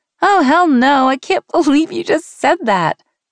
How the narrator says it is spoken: Sean started laughing

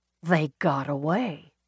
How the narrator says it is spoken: Peabody murmured

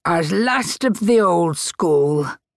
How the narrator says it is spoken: Jack added gruffly

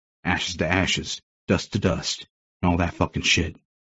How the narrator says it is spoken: muttering

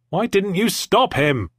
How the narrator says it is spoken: I yelled

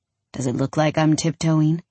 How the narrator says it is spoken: He drawls

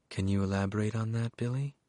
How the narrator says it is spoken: the therapist said, her tone mildly sedating

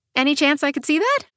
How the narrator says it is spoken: I ask cheerfully

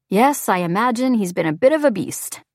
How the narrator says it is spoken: chuckles

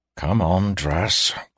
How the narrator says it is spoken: growled Driskin

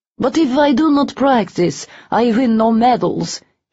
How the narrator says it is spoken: he said in a Russian accent

